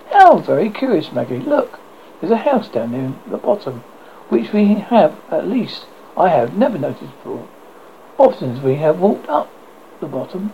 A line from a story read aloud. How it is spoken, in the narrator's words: Alice exclaimed